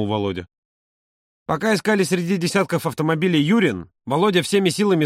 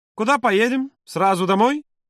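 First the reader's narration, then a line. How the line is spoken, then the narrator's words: Cheerful question. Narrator (Russian): бодро спросил Юра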